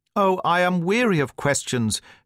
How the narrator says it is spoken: cried Miss Cushing impatiently

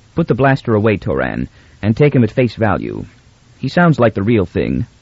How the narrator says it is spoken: Beta said calmly

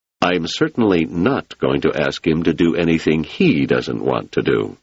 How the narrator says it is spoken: Selden said firmly

